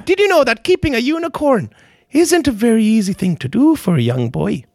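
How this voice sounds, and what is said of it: Put-on Irish accent. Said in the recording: “annoying accent. I don't know if it's British. It might be an Irish accent. ... My accent?”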